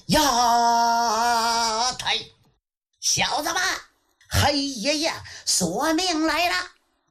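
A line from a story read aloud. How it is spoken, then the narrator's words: Loud shout. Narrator (Chinese): 大喊一声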